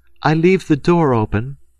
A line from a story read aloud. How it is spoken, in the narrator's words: saying in a loud, cheerful tone